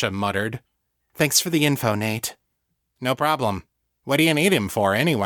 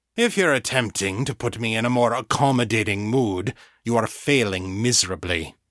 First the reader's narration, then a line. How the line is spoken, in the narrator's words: he growled